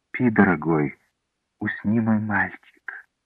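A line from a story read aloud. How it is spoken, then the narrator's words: Tender motherly whisper. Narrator (Russian): Эта мама нежно нашептывала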